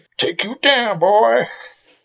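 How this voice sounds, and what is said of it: Poor put-on American outlaw accent. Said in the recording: “impersonation ... very poor American um, 19th century outlaws ... very yeah, poor”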